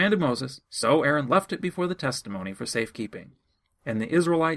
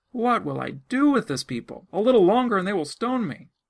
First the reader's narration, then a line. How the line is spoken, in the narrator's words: Moses cried out to Yahweh, saying